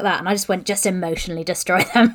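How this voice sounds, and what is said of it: Put-on sinister character voice. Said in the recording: “You actually put on your goblin voice when you said that. ... No, that was my satanic voice.”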